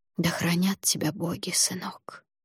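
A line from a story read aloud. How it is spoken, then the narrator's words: Whispered. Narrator (Russian): прошептала она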